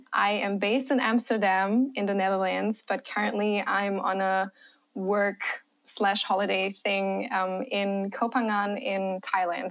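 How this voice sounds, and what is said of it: Mixed accent with slight German. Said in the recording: “your accent, ... I was so confused ... Such a mix ... my German accent ... Your accent is beautiful”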